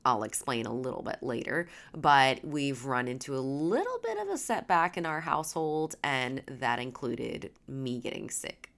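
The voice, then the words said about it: Stuffy, congested voice. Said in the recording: “I sound a little stuffy, it's because I am”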